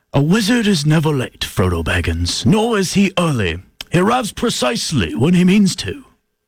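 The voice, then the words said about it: English-accented wizard character voice. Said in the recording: “do a Gandalf impression ... He's got to do the English accent ... That was actually quite good. It was a mix of Jason Statham and Gandalf”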